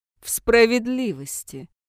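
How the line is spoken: Cold smiling reply. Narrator (Russian): Маркус холодно улыбнулся

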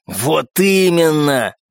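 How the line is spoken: Growling. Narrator (Russian): прорычал первый

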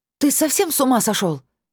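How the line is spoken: Breathless shout. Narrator (Russian): Тяжело дыша после ледяного купания, прокричала я

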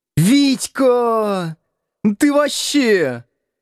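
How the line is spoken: Girl shouting. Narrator (Russian): закричала девушка

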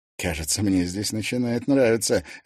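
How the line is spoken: Laughing. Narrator (Russian): рассмеялся Герман

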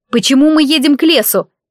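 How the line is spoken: Shout. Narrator (Russian): крикнула

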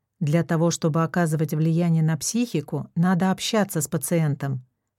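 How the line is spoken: Plain. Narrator (Russian): сказал Игорь

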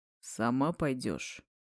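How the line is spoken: Almost even-toned question. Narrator (Russian): Почти ровным тоном спросил Старк

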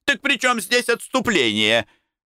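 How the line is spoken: Group shouting. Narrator (Russian): Апостолы закричали

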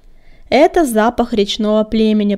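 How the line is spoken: Growled close to ear. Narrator (Russian): прорычал над его ухом Коготь

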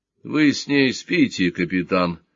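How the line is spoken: Tired question. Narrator (Russian): устало спросил Сварог

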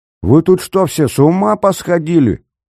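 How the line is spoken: Shouting. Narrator (Russian): кричал Ромашко

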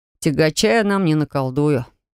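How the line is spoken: Sad admission. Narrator (Russian): печально признался он

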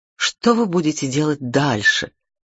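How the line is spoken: Plain question. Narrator (Russian): спросила я его

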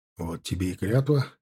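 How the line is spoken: Snorting reply. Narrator (Russian): хмыкнув, ответил Тимофей

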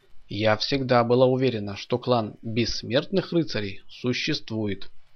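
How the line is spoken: Calm. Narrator (Russian): спокойно сказала Тоня

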